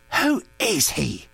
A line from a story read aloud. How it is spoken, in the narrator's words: demanded fiercely